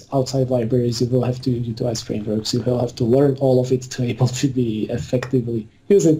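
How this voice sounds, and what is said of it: Slovakian accent. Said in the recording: “sexy Latvian accent you have ... Wrong European country ... Slovakian accent”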